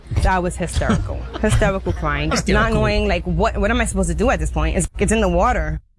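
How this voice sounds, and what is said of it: Attractive-sounding accent. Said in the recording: “her sexy accent”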